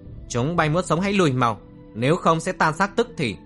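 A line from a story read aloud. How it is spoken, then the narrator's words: Shout. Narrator (Vietnamese): Trầm Kha hét lên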